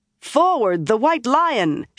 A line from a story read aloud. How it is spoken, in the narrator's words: she shouted again, the battle cry of Andor